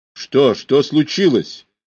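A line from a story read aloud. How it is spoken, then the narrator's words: Irritated shout. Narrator (Russian): раздраженно крикнул, досадуя, что это произошло именно сейчас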